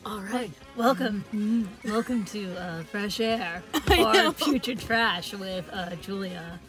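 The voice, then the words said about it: NPR radio host voice. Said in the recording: “You put on your, like, NPR voice.”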